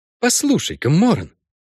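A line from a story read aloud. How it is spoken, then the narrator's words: Forced cheerfulness. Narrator (Russian): сказал Накуста нарочито весело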